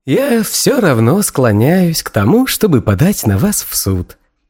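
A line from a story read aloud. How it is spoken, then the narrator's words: Pleasant voice. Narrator (Russian): сказал Фил приятным голосом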